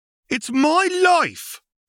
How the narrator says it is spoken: a youngling shrieks

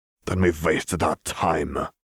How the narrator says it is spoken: Gertier growled

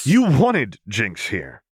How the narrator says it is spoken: Vi snapped, cutting her off

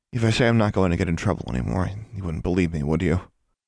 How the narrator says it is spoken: Anna laughed quietly

